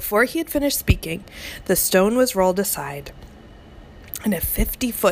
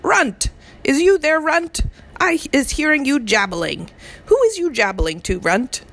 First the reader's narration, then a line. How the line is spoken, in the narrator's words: a voice like thunder shouted